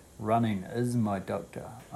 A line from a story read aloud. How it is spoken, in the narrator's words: said